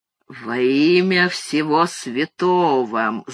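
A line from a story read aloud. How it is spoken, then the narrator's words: Ominously calm question. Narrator (Russian): зловеще спокойно осведомился Зигфрид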